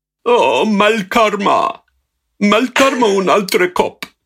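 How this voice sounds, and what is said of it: Imitates another person's voice. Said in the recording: “I got to know the voice of the guy who dubbed me ... That's how he talked ... He talks in this weird”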